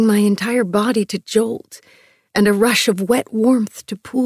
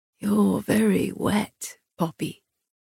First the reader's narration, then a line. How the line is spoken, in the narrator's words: he murmured